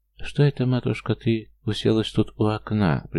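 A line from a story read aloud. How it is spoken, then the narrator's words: Sad, sickly mother. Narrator (Russian): произнесла маменька печальным и болезненным тоном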